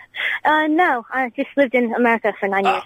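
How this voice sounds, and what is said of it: Transatlantic accent, not quite American. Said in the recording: “are you Canadian? ... cooler than the transatlantic accent you've got there ... it wasn't quite American, but there was an edge to it”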